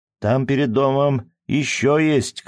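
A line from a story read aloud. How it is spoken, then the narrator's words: Old woman shouting. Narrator (Russian): крикнула старая Хэт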